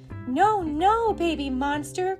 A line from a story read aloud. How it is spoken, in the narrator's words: cried the neighbor